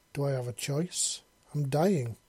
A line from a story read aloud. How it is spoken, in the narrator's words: he said sadly, feeling the purest grief and misery welling up in his heart